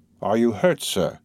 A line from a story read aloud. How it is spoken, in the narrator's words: coldly asked Morel